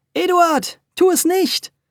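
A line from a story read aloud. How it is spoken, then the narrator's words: Called out. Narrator (German): Frau Wölkchen rief noch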